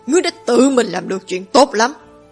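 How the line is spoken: Furious shout. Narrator (Vietnamese): Thịnh Hoành nổi giận, quát

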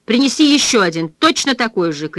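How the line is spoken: Female shouting after someone. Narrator (Russian): крикнула она вдогонку

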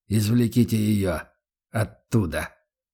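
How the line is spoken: Strained, forced calm. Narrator (Russian): выдавил из себя Гатриан, прилагая титанические усилия, чтобы выглядеть спокойным

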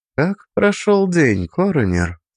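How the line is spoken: Soft gentle question. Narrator (Russian): спросила Шая мягко

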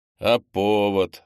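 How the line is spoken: Skeptical snort. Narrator (Russian): хмыкнул Немченко

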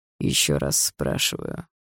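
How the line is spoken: Cold voice. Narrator (Russian): холодным голосом сказал Барс

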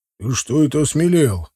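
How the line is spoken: Menacing grumble. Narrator (Russian): проворчал угрожающий Тивадар

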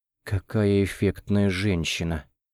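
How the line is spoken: Nervous exhale. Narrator (Russian): Нервно выдохнула Нонна

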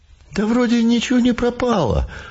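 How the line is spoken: Dejected. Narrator (Russian): уныло сообщил кто-то из пассажиров

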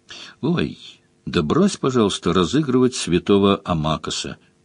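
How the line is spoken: Quiet woman. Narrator (Russian): тихо сказала Мара

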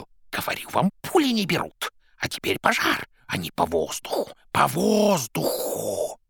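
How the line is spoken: Hissing. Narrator (Russian): Боба шипел

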